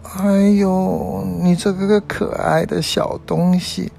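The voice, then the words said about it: Soothing, comforting voice. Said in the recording (Chinese): “做着安慰的声音说着”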